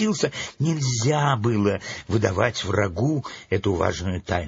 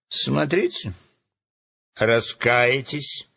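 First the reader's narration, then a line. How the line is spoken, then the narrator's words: Angry threat. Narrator (Russian): злобно пригрозил Джуз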